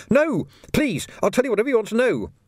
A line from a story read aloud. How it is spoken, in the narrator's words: the man yelled